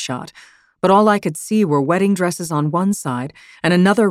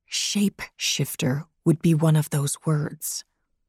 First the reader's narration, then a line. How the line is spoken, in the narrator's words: I lowered my voice even more and said